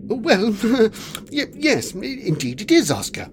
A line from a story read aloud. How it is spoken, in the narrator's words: chuckled Quilby